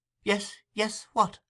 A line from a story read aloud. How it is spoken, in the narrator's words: cried the other